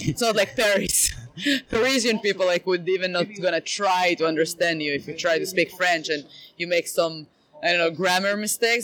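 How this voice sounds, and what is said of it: Israeli-accented English. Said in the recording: “I will always be an Israeli, that's for sure. Also, I'm not going to work on my accent ... I'm going to keep it forever. I like it.”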